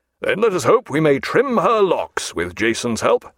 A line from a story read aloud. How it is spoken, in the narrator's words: said Jack at once, and he laughed aloud